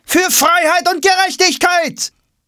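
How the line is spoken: Another voice calls. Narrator (German): Ein anderer ruft

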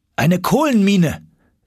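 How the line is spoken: Called out. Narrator (German): rief ich

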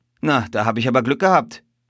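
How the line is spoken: Calling out. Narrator (German): rief er

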